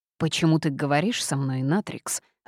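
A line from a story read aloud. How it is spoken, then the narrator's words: Demonic growl. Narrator (Russian): рыкнул демон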